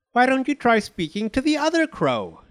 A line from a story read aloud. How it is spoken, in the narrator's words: snapped